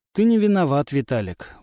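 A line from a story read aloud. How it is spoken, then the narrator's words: Glum remark. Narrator (Russian): уныло заметил Светлов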